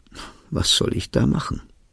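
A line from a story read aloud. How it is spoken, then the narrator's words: Sad. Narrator (German): traurig sagt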